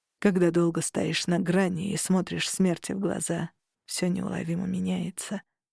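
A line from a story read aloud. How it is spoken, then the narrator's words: Quiet. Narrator (Russian): сказал он тихо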